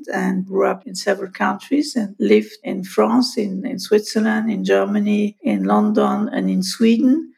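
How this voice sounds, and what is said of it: French accent. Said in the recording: “I was raised in Paris, hence my French accent”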